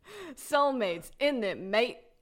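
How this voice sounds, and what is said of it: Very bad put-on British accent. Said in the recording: “Is he saying mate because he's British now? ... That's the worst accent I've ever heard. ... It's really bad. ... our deranged impressions of Tack, because neither of us can do Australian accents. ... some Eliza Doolittle shit”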